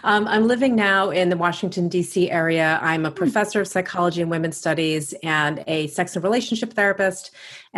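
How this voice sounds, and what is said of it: Long Island New York accent. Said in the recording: “you'll probably hear my Long Island accent pop in from time to time”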